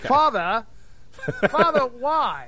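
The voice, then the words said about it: Child's voice with British accent. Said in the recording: “doing an impression of my kids, but they were always British ... my kids were suddenly British, according to you ... I did an impression”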